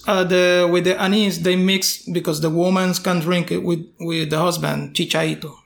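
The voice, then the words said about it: Speaker's own accent. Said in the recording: “your accent”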